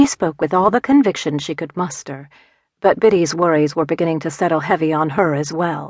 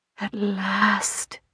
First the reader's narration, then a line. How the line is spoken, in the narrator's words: Biddy breathed